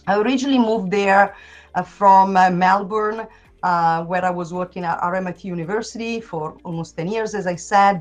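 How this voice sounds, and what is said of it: Unusual Italian-Australian accent. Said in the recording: “I've got a kind of unusual accent. That is because I'm originally from Italy. But I lived in Australia for almost 10 years”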